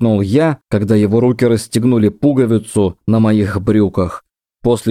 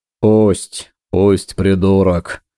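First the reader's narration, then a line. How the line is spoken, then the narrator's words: Muttering. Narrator (Russian): бормотал Виктор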